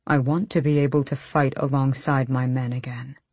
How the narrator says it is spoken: Kaol said quietly

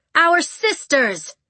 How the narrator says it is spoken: Caledonia raised her voice a little more

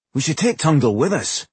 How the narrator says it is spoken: his brother said anxiously

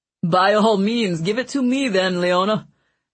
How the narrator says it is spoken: Mancini said with a laugh

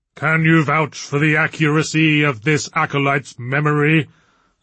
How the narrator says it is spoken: asked the booming first voice humorlessly

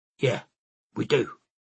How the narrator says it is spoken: Kazi said, her tone standoffish

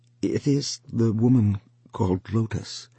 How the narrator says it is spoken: Then Wang Lung answered unwillingly and timidly, for he had never spoken her name aloud before to anyone

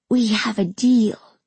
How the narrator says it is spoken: Kamala whispered into my ear

